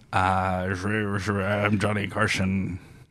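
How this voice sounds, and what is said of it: Decent Johnny Carson impression. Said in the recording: “my Johnny Carson impression ... he's very impersonated ... Yeah, that's not bad.”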